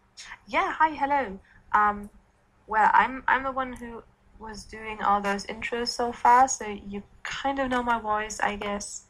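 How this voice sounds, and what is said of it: German accent. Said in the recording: “my weird German accent.”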